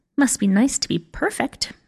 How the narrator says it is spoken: muttered Pink

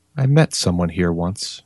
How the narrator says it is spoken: Mira said softly

